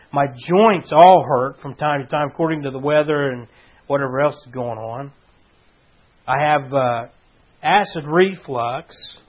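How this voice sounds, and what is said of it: Hoarse, rough-throated voice. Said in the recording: “You can hear the hoarseness of my throat.”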